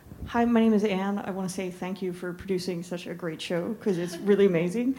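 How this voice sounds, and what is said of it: Speaks with a strong authentic accent. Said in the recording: “a great accent, probably the best in the room ... very convincing ... Very authentic”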